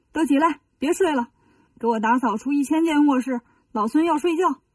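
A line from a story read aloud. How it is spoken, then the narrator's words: Shouting. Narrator (Chinese): 就喊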